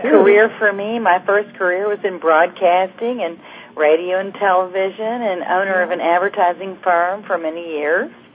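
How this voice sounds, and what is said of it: Southern American accent. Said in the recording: “you got a Southern accent”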